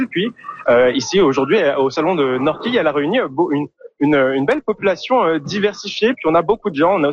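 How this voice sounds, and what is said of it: Accent from France. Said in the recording (French): “vous l'entendez à mon accent. Moi, je suis français.”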